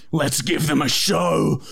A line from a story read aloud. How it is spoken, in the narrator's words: I said through gritted teeth